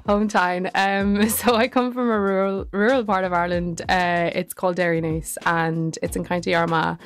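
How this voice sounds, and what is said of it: Irish South Armagh accent. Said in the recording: “you've blessed us with a wee little accent over here ... you'll get kind of a bit of a twang ... it would be kind of a South Armagh kind of twang”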